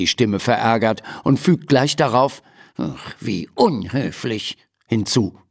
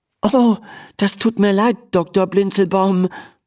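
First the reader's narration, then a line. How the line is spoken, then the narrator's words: Stammering. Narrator (German): stammelt Emma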